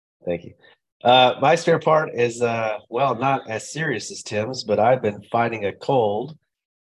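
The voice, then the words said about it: Deeper, sick-sounding voice from a cold. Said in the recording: “my voice is not deeper than normal ... I'm just sick”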